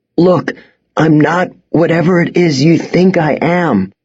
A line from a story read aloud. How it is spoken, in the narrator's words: I croaked